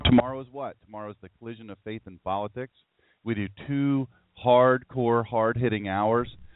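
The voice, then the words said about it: Worn-out, tired voice. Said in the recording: “if you hear the voice, you know that I've been talking all weekend, so my voice is a little worn out”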